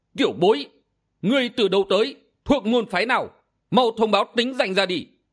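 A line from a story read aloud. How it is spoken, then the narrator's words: Angry old man's roar. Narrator (Vietnamese): Hắc y lão nhân tức giận gầm lên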